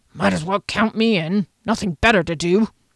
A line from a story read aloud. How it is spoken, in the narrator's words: a grunt from Janik, who then added